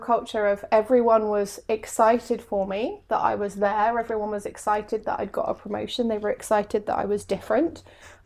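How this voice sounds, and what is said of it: English accent. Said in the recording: “English ... my quirky accent”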